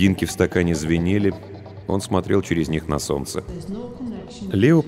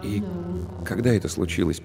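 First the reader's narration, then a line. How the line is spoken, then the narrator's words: Quiet question. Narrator (Russian): поинтересовался он тихо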